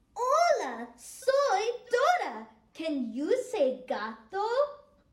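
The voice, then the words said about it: Impression of Dora the Explorer. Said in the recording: “my impression of Dora the Explorer”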